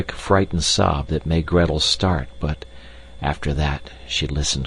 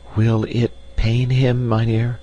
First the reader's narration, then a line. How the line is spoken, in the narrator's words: she asked in a trembling voice